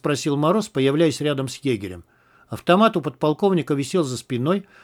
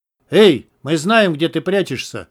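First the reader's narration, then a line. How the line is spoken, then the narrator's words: Powerful shout. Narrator (Russian): мощным голосом крикнул Мороз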